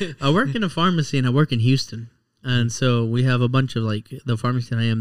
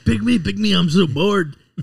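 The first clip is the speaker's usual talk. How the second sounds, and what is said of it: Exaggerated Texas twang. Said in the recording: “I put too much twang on the board ... The twang ... Texas accent”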